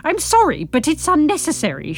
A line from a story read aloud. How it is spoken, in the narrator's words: she spluttered